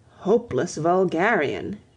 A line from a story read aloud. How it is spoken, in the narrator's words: exclaimed Cecil